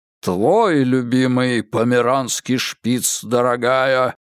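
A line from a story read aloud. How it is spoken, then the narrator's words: Disapproving booming bass. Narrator (Russian): проговорил Генри Кэббот Лодж неодобрительным басом, от которого задрожали хрустальные подвески канделябра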